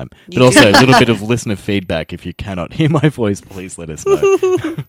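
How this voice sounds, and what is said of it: Deep radio voice. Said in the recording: “my voice is deep ... You have a very lovely radio voice”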